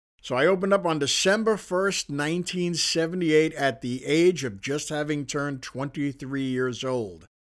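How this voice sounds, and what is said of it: Slight Queens New York accent. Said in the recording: “I had to spend a lot of time trying to lose my Queens accent, which I'm fairly successful at, not completely, you can tell from the sound of my voice”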